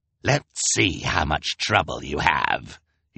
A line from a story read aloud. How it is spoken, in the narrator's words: he snarled